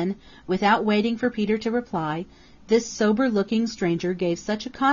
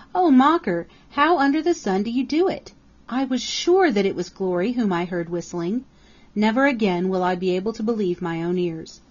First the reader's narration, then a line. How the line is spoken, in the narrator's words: gasped Peter